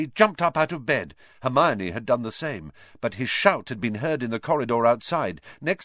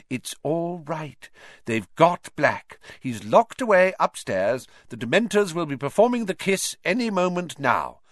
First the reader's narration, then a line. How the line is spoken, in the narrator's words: said Madame Pumphrey, soothingly